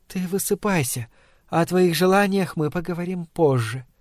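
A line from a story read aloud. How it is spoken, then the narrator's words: Quiet. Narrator (Russian): она тихо проговорила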